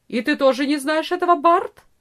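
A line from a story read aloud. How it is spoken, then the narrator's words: Angry peasant woman asking. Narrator (Russian): спросила крестьянка, сердито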